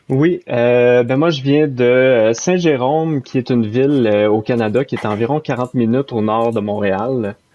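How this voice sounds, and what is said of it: Noticeable regional French accent. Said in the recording (French): “on entend ton accent”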